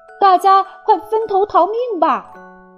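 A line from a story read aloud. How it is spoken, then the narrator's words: Urgent loud shout. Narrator (Chinese): 泰山情急之下大声叫道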